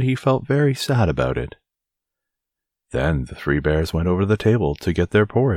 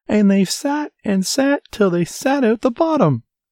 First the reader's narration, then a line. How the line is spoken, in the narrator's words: squeaked the baby bear in his shrill little voice